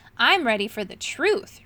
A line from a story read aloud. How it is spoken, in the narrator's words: replied Moongobble firmly